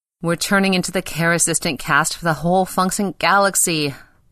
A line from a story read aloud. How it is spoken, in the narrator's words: moaned Pele